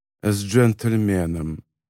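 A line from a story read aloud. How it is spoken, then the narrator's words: Muttered, man. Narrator (Russian): пробормотал мужчина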